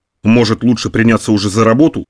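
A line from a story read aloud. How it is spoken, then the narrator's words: Grumble. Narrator (Russian): проворчал он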